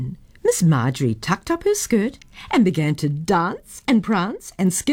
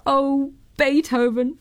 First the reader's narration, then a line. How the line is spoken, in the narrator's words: cried Miss Marjorie in her speaking to little bird's voice